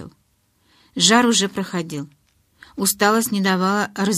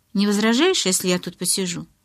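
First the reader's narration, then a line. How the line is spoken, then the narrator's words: Plain. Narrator (Russian): спросила Элис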